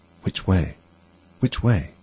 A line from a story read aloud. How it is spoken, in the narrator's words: said anxiously to herself